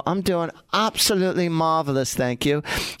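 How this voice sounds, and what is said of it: Put-on accent. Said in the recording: “I'll speak just exactly the way I just said it with this accent... what a beautiful accent”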